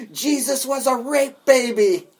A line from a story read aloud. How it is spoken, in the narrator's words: he yelled at him